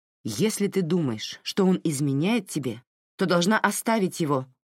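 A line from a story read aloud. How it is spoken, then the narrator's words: Sharp declaration. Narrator (Russian): резко заявила Фрэнсис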